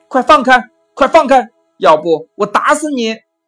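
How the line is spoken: Loud shout from behind. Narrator (Chinese): 背后一声大喊

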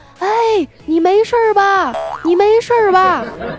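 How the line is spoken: Terrified shout. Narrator (Chinese): 他就惊恐的朝那山谷里大喊道说

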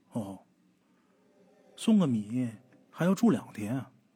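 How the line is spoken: Voice from upstairs, after pause. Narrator (Chinese): 楼上那个声音先是顿了顿，然后又说

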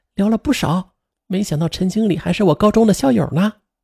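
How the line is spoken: Lowered voice. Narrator (Chinese): 王青青则放低声音说

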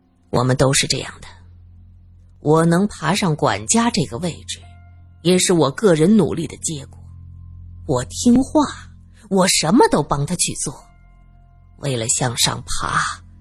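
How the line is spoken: Amazed exclamation. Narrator (Chinese): 苏三忍不住惊叹

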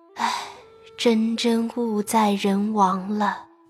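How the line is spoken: Sighing. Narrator (Chinese): 又叹道

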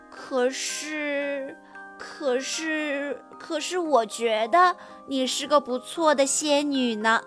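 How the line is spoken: Sniffling mumble. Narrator (Chinese): 哈瓦尔吸吸鼻子，嘟囔着说

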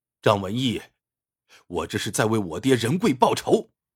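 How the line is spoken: Furious shout. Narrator (Chinese): 张远山怒不可遏，喝道

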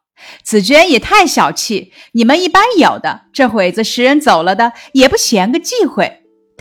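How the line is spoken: Laughing. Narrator (Chinese): 探春笑道

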